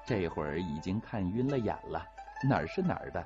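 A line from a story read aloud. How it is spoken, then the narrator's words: Laughing. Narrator (Chinese): 陈氏笑着说道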